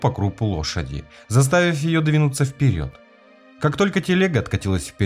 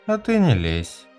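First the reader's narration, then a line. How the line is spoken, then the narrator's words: Cold. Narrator (Russian): холодно сказал Дорс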